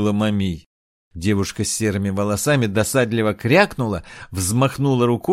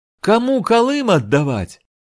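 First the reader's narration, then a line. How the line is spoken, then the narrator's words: Shrill disembodied girl's voice. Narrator (Russian): неизвестно где снова раздался визгливый голос девушки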